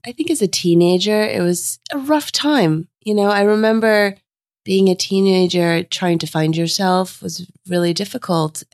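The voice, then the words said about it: Husky, under-the-weather voice. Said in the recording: “you're not feeling 100% ... I have my sexy voice”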